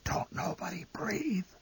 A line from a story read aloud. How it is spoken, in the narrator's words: The old man whispered hoarsely